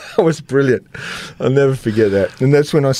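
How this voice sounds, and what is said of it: Usual voice. Nothing is said of it.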